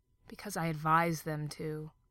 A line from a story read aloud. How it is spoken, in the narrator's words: said Crowley wearily